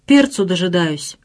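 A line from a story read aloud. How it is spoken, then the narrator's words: Stern, stiff cold lips. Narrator (Russian): строго отвечала ледяной верхней губой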